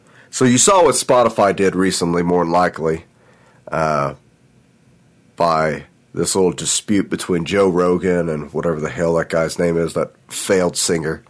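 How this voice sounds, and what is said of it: Raspy, sniffly sick voice. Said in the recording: “I've been sick for like 4 days now, so I apologize for the sniffles that I have or my raspy voice.”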